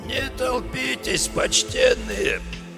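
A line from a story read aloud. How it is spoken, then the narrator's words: Hoarse cracked plea. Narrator (Russian): Сиплым, надтреснутым голосом попросил он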